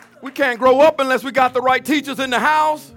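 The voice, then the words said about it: Sounds angry, forceful preaching. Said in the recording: “I'm not mad. I'm sorry. I sound mad, don't I?”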